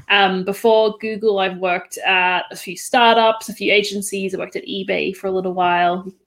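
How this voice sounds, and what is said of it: Australian accent. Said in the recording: “Probably detect Australian accent here.”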